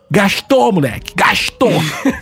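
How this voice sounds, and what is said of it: Put-on Rio de Janeiro accent. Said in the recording (Portuguese): “imitação ... mas com o sotaque do Rio”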